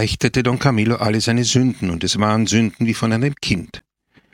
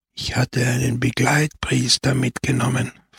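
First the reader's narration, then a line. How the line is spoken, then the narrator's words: Old man whispering. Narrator (German): flüsterte der Alte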